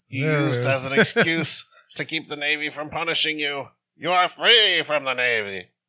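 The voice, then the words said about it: Bad menacing villain character voice. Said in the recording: “You sound like a shitty Sauron. Like, it's like, what's the worst actor we could get?”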